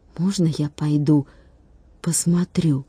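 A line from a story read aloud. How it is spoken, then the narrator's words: Whispered question. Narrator (Russian): шепотом спросил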